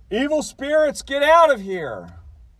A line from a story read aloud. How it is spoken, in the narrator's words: We shouted